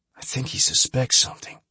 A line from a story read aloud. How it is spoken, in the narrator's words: Trip Jones whispered